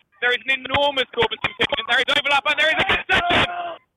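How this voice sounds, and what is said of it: Shouting over a loud crowd. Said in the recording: “sorry I'm shouting.”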